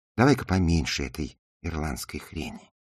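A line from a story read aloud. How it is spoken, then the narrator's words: Whisper. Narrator (Russian): прошептала она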